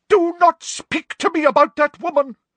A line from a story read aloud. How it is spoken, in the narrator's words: cried Professor Trelawney